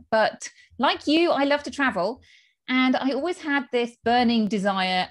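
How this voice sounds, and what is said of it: British accent. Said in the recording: “as you can tell from my accent, I am from the UK”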